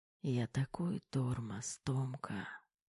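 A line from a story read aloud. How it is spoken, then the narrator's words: Barely audible whisper. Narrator (Russian): Едва слышно шептал Кирилл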